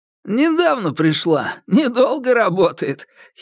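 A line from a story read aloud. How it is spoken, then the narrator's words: Giggling. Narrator (Russian): хихикнул он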